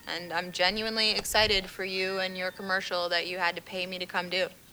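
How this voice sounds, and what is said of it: Flat, sarcastic-sounding delivery. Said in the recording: “A little more excitement, please. ... That's just my voice. It's permanently sarcastic. ... Sounds really sarcastic to me.”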